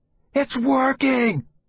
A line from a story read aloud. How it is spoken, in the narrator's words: I screamed at Uncle Clayt